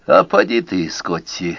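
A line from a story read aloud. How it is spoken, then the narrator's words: Glum. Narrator (Russian): уныло сказал Рой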